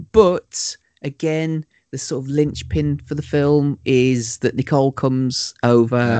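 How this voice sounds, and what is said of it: Usual voice. Nothing is said of it.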